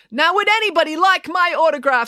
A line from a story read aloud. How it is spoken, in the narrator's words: she cried to the crowd